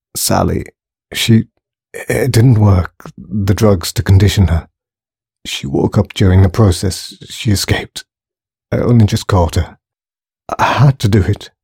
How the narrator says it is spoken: he muttered

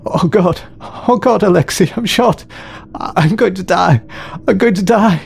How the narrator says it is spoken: sobbed the youth

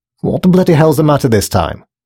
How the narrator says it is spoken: snapped Grace

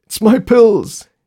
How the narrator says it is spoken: he said between gasps

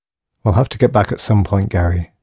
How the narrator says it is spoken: sighed Saul

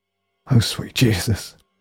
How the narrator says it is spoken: he gasped

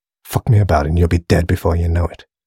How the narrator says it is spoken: he muttered

